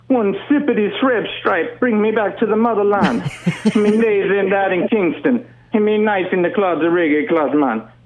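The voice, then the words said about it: Imitated Jamaican accent. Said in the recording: “You think he's Jamaican? ... Let me see if I get the accent.”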